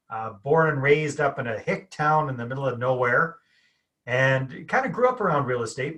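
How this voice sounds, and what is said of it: Canadian accent. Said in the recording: “as your listeners can probably hear, I'm Canadian, got the accent going here.”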